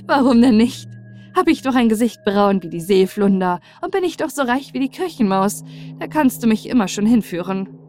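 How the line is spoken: Laughing, joking. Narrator (German): Sie lachte laut und sprach im Scherz

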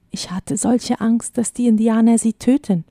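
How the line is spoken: Whispered. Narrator (German): flüsterte er

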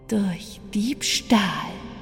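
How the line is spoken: Hissed. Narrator (German): zischte

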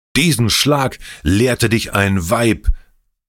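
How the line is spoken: Old man's angry shout. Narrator (German): schrie der Alte voller Zorn

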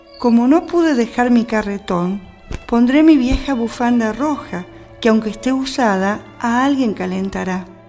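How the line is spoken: Sighing. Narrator (Spanish): suspiró

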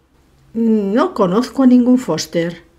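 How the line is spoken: Grumpy growl. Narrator (Spanish): gruñó el dueño de la casa malhumorado

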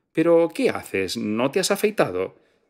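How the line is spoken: Quick exclamation. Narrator (Spanish): Ella esperó a duras penas a que colgara y rápidamente exclamó

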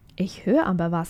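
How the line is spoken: Plain. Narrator (German): sagte Josh

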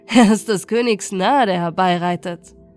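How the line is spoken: Mocking. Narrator (German): sie spotteten

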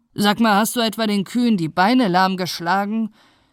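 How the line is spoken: Devil roaring in rage. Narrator (German): brüllte der Teufel blau vor Wut

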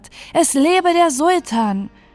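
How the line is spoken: Enthusiastic cheering. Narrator (German): Man rief begeistert

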